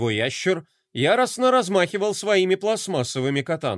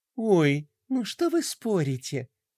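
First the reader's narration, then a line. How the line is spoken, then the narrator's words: Lazy drawl. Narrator (Russian): лениво протянула Пинки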